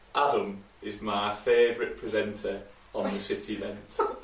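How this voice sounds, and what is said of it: Put-on Yorkshire accent. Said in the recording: “your best Yorkshire accent”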